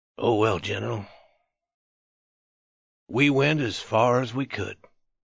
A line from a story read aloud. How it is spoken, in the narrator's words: he said calmly